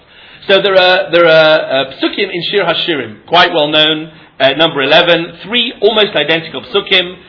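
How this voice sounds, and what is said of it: English accent. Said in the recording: “it's my English accent”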